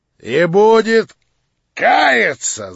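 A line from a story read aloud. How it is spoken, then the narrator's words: Shouting. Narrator (Russian): закричал Рогожин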